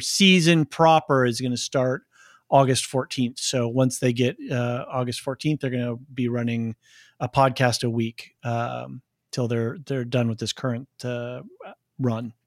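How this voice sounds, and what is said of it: Slightly hoarse voice. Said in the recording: “I'm a little hoarse.”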